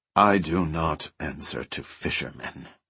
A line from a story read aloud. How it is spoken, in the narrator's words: Wen said coldly